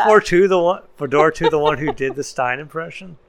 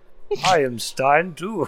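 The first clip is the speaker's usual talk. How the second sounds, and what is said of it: Imitates a character's voice. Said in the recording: “my Stein impression”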